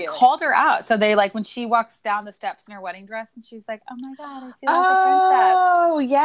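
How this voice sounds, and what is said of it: Usual voice. Nothing is said of it.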